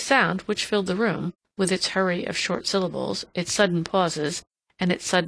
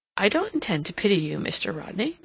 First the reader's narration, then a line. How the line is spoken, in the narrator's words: Mary remarked, kindly, but firmly